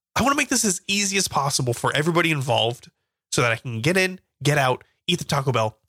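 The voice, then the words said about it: Voice congested from a cold. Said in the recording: “I have a little bit of a cold”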